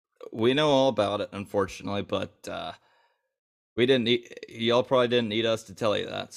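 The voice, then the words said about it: Hoarse, partly lost voice. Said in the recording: “my voice is kind of gone a little bit”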